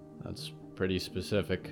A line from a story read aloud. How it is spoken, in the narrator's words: Cole mumbled